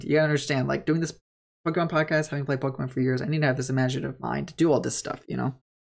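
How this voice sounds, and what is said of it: Very fast, excited speech. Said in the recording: “I'm talking really fast. ... Just because I'm excited.”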